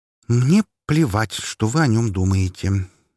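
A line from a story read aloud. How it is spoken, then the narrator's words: Much calmer, confident. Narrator (Russian): уже куда более спокойно проговорила она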